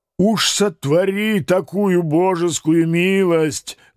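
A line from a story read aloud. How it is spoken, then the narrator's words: Loud old man. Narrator (Russian): громко поддержал меня старый казак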